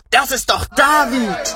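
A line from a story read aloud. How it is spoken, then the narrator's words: Shouted together. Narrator (German): schrien sie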